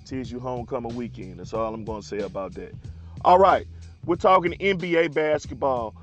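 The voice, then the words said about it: Worn, off-sounding voice. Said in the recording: “forgive my voice. It's a little crazy right now.”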